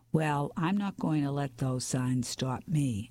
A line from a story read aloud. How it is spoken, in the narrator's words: I replied